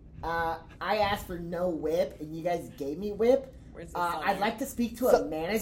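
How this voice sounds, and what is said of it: Put-on Southern accent, entitled complainer. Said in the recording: “Get into a southern accent and then you imagine you're a Karen ... Southern ... This is my fucking southern accent”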